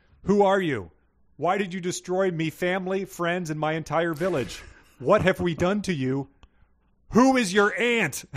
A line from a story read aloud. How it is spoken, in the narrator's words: She's distraught with grief, but she's also in the middle of a battle for her life on a dragon, and she's yelling